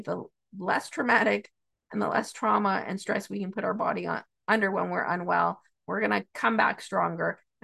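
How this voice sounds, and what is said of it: Hoarse, froggy voice. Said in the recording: “apologize for my voice ... I'm not feeling well today ... the froggy voice”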